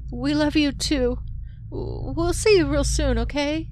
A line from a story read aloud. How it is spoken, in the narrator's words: She choked